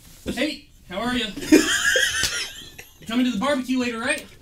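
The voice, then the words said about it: Friendly next-door neighbor character voice. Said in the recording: “my friendly neighbor impression”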